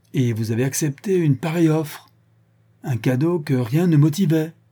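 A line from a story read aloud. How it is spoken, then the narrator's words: Exclaiming. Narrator (French): s'écria Barnett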